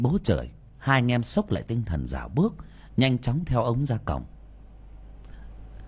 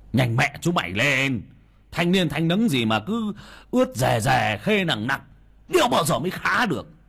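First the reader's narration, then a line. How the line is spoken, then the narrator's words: Irritated shout. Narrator (Vietnamese): ông ngứa mắt mà quát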